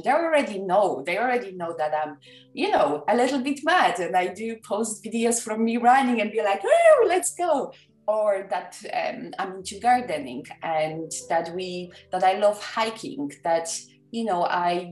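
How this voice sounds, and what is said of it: Polish-accented English. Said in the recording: “I was born and raised in Poland. English is not my first language ... half broken English”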